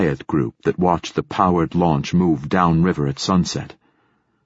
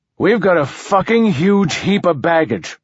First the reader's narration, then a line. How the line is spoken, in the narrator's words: Martin Silenus said loudly